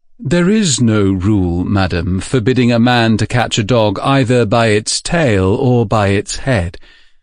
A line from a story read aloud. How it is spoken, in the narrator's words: being quick at repartee, and therefore not in the slightest confused, replied in an even tone of voice